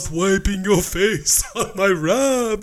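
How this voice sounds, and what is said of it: Dracula-style character voice. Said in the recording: “gave him that voice. ... That's the Dracula voice that you gave him”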